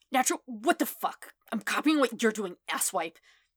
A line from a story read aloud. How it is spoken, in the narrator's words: Kachan sputters, obviously trying to hide his embarrassment